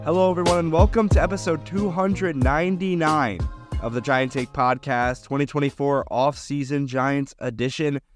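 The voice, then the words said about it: Sick voice with a cold. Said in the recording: “If you can't tell by my voice, I'm a little bit under the weather ... I just have a common cold”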